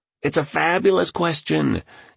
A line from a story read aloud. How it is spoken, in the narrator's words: exclaimed the tycoon